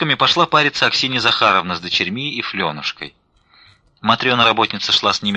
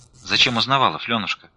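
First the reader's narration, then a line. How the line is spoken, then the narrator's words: Plain. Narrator (Russian): спросила Настя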